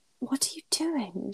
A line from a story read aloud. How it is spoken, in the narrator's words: she whispers, breathless